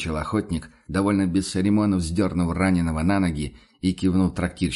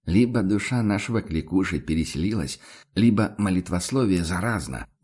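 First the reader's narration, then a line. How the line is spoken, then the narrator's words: Grumbling mutter. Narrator (Russian): буркнул Ван Ален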